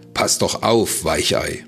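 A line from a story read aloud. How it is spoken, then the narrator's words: Mocking shout. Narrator (German): rief er höhnisch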